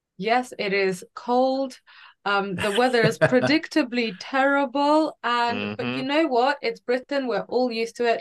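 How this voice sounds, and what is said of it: Slight accent. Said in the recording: “You might detect a small accent if you're listening.”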